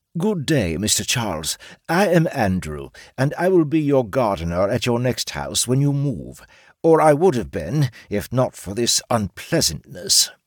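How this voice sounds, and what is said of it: British-accented character voice. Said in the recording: “The tall lizard man's British accent”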